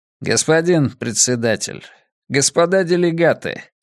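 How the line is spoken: Calm retort. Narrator (Russian): спокойно парировал Рэй Диас

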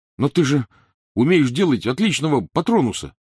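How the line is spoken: Protesting exclamation. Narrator (Russian): протестующе воскликнул Рон

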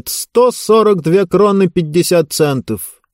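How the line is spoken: Waiter shouting back. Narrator (Russian): Официант крикнул в ответ

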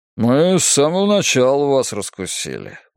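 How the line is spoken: Good-natured grumble. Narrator (Russian): благожелательно проворчал он

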